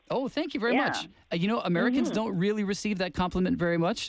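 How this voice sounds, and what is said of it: American accent. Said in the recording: “I'm from the United States. ... Did my accent give it away? ... you sound really, nice”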